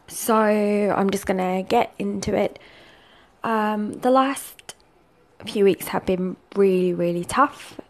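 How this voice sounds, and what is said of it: Subdued, downcast voice. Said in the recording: “You can probably tell by my voice, I'm pretty gutted at the moment.”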